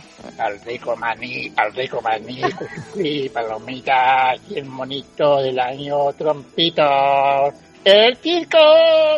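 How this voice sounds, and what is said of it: Clown voice. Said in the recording (Spanish): “es difícil hacer voz de payaso”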